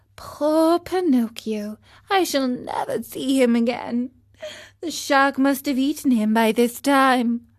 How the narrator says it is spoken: bleating sadly, said

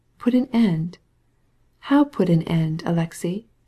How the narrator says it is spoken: she asked gently

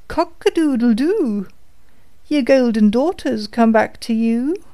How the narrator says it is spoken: the cock called out

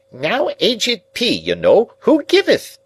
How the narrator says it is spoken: the bridegroom cried out in his accustomed voice

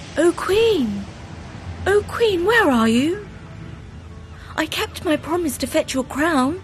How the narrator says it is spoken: called out

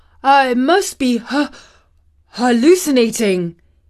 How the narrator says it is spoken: he panted

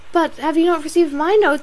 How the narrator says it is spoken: cried Marianne in the wildest anxiety

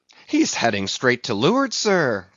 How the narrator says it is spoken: cried Stubb

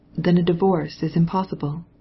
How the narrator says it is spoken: he asked gently

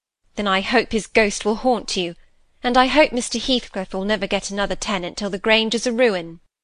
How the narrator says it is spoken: she answered sharply

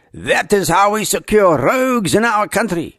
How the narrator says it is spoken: shouted

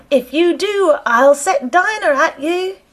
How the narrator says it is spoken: Alice called out as loud as she could

